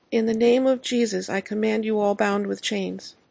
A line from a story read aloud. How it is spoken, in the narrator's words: she called out rather timidly